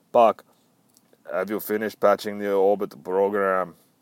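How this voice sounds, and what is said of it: Put-on Russian accent. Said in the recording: “That's a really fucking good Russian accent. ... That's fucking terrible.”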